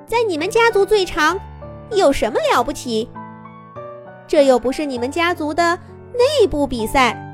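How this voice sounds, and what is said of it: Thin, high, small voice. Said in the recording (Chinese): “一个尖细的小声音”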